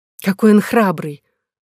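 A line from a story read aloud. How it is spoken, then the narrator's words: Queen exclaiming. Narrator (Russian): воскликнула королева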